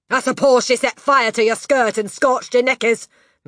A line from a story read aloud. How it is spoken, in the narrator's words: Miss Trunchbull snorted